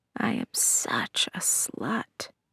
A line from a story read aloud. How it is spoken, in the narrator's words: whispered